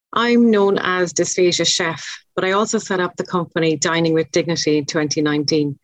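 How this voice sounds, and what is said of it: Irish accent. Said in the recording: “in my best Irish accent”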